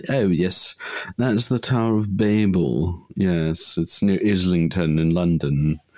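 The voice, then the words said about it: Put-on posh English accent. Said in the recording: “That was my best posh English accent. ... It's very good.”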